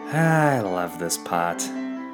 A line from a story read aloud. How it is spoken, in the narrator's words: he sighed